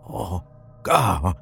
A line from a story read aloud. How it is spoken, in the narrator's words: Sean croaked